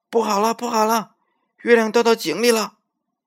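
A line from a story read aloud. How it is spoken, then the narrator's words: Frightened shouting while running. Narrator (Chinese): 小猴子吓得撒腿就跑，一边大声叫喊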